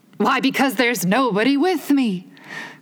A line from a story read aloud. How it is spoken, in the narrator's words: cried Humpty Dumpty